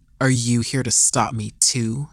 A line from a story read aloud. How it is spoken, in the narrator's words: he grumbled under his breath